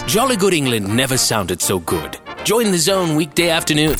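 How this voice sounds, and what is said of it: English accent. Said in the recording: “my stupid English accent”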